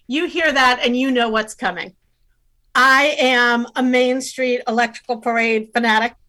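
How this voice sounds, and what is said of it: Usual voice. Nothing is said of it.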